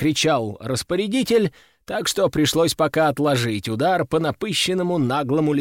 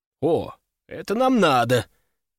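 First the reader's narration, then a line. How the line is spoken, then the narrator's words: Exclaimed. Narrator (Russian): воскликнул я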